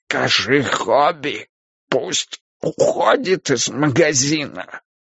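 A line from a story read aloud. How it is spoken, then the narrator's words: Hoarse. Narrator (Russian): хрипло сказал он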